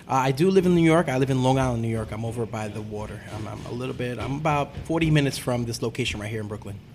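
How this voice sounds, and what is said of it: Long Island New York accent. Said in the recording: “Are you like a native Long Islander? Because I'm picking up the accent.”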